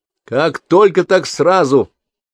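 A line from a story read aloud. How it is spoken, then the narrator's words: Cheerful, hiding tension. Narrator (Russian): весело бросила она, стараясь не выдать своего напряжения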